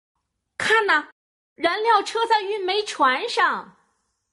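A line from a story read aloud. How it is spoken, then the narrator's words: Loud shout. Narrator (Chinese): 欧利大叫道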